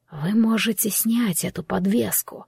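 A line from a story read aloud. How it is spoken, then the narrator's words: Quiet. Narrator (Russian): тихо произнес Роман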